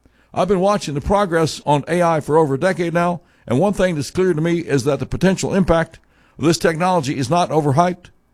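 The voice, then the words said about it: Lame impression of Obama. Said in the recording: “my lame impersonation ... Obama pontificating”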